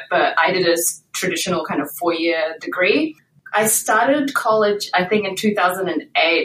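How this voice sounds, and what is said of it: New Zealand accent. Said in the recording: “In case you can't tell from my accent, I'm originally from New Zealand.”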